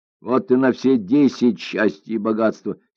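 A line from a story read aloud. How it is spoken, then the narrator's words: Laughing, chiming in. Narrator (Russian): смеясь подхватил Шунин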